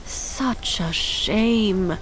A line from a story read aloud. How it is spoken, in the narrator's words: someone near Jin murmured